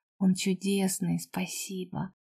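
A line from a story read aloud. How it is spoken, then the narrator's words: Affectionate thanks. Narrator (Russian): Поблагодарила ласково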